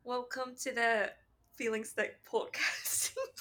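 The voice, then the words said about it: Attempted British accent, not convincing. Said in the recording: “I'd like to think I have a good British accent. ... Do one. ... Well, A for effort.”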